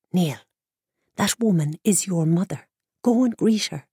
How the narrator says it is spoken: whispered Thorna

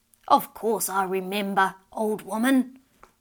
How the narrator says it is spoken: the old man gruffly replied

